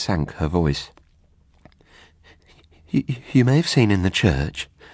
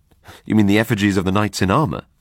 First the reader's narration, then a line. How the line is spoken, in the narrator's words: said cheerfully